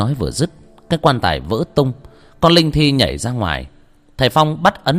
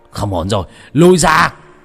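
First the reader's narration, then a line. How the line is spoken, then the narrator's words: Sudden shout. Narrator (Vietnamese): Thầy Phong bất ngờ hét lên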